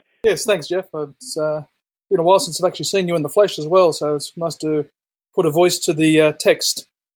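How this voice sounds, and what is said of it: Australian accent. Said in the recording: “Some apologies up front for anybody dealing with an Australian accent ... it's charming”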